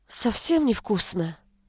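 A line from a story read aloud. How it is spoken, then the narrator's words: Dejected voice. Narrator (Russian): упавшим голосом спросила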